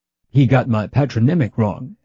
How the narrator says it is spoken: adds Ilya Borisovich with a kindly chuckle

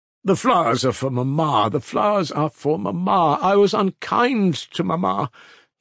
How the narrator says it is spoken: he began exclaiming suddenly

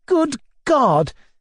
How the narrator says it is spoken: cried ecstatically

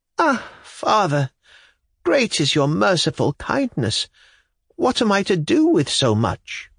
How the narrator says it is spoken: wailed the widow

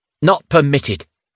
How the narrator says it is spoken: The Gorgon with the light blue epaulette snapped back

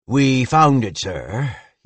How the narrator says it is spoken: he said with a sigh

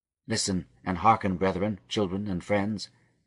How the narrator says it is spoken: he began in his quick, soft voice

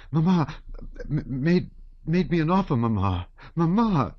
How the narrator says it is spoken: she exclaimed

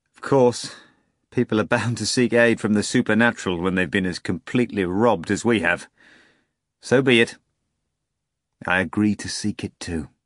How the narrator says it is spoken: Laughing, he added

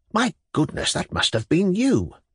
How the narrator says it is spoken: whispered Ivan Andreyitch

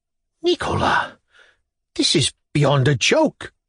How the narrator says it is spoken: moaned mechanically in a voice not his own

